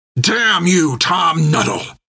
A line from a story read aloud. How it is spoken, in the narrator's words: shouted Creech